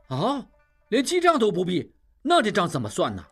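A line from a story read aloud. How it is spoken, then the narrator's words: Crowd clamoring. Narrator (Chinese): 众人又嚷嚷起来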